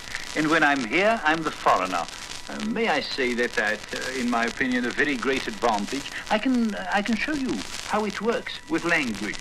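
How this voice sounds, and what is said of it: Mild foreign Dutch accent. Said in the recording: “I have a foreign accent, not very strong.”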